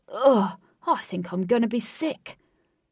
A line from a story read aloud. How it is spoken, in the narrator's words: Realising the full implications of being carried in a cat's drooling mouth, he cried